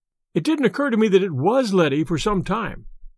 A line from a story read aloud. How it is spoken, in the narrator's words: said her brother